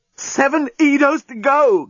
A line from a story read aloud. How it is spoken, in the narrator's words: gasped the journalist